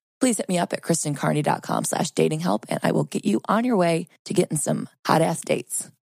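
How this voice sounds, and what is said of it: Voice strained by sore throat. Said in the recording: “Forgive my voice. I've got a sore throat.”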